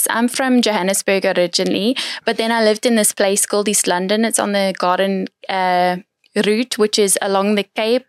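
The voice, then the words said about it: Put-on South African accent. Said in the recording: “the South African accent is amazing. Like, can you still fake it?”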